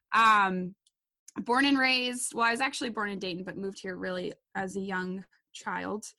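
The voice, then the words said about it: Wisconsin accent. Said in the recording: “I'm from Wisconsin, for all you out there who are detecting my accent.”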